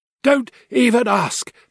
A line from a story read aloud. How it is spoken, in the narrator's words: panted